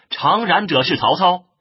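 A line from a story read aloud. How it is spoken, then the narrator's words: Loud shout. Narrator (Chinese): 又听得大叫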